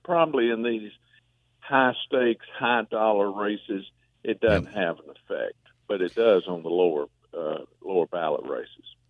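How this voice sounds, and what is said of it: Speaks with a distinctive regional accent. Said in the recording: “if I had your accent, I'd just keep talking and talking and listening to my voice”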